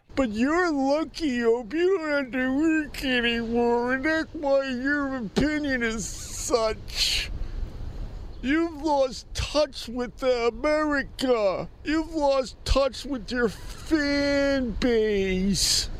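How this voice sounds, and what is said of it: Mocking internet hater character voice. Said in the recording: “doing the hater voice”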